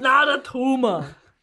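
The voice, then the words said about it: Good impression with Austrian accent. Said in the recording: “That's quite good, isn't it? ... That's real good. I haven't heard an Arnie impersonation since the 80s.”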